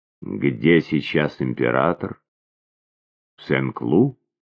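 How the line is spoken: Icy question. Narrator (Russian): Ледяным голосом Марианна спросила

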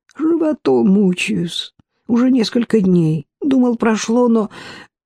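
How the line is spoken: Pitiful voice. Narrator (Russian): жалким голосом пояснил

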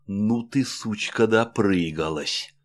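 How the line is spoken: Hateful words through teeth. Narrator (Russian): с ненавистью, процедил

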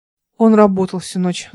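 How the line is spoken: Sigh. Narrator (Russian): вздохнул Игорь

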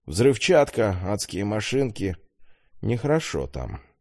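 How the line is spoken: Sighing. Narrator (Russian): вздохнул Иван

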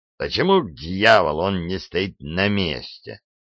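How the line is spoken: Muttering to himself. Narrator (Russian): проворчал он, как бы разговаривая сам с собой

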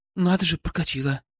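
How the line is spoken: Breathy exhale. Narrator (Russian): выдохнула Пестрякова

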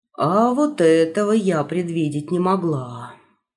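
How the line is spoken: Sighing. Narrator (Russian): вздохнула тетушка Баунти

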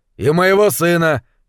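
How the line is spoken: Shouted from the hall. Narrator (Russian): крикнули из зала

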